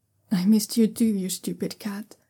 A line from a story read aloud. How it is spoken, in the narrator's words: Zhao Yunlan whispers